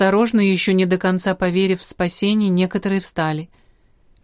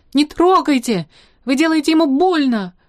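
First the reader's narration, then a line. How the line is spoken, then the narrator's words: Shouted. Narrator (Russian): крикнула она Массе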